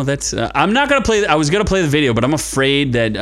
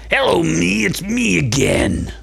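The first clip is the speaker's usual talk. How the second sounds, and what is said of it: Strained, constipated-sounding put-on voice. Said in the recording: “Sounds like you're just doing a constipated voice.”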